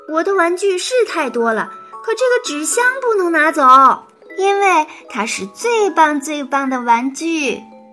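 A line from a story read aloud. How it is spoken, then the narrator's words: Shouting from another room. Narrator (Chinese): 赛赛在房间里喊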